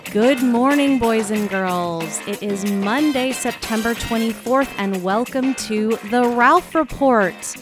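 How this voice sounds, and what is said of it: Polished podcast host voice. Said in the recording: “I love this podcast voice.”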